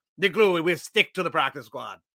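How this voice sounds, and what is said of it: Put-on French-Canadian accent. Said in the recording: “That is my French-Canadian accent for you.”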